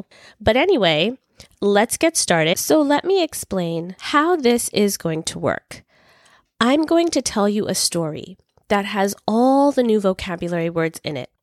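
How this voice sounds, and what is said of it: Slightly altered, sick-sounding voice. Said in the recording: “you may wonder why my voice sounds a little bit different. And the reason is because I currently am recovering from having a cold ... I'm actually recording my first few episodes while I'm a little bit sick ... my voice sounds a little bit different”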